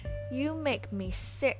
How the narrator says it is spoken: she bellowed

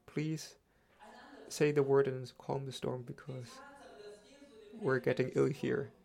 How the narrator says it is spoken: said in a calm voice

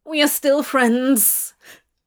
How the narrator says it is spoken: Crawley whined, getting quite nervous now

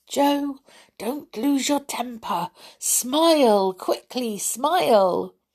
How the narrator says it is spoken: Franny whispered to him

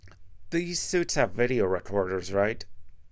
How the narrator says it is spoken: Horizon asked

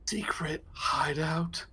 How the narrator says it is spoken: I whisper

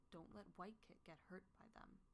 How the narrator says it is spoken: he whispers

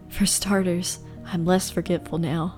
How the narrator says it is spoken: Jack whispered

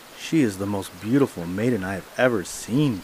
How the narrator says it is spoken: cried the king

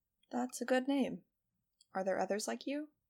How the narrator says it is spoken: she asked

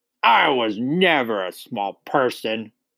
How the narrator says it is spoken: she snapped

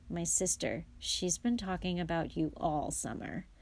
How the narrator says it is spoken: said Ron in an undertone to Harry

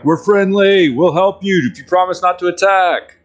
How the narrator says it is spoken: yell out

